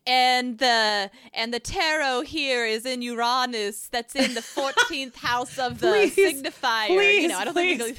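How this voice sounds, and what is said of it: Put-on accent. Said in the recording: “I love hearing you say Uranus. In that accent.”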